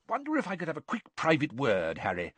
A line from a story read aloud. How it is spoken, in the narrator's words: said Bagman eagerly